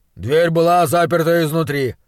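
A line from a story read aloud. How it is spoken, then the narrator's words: Muttered. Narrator (Russian): пробурчал Бернс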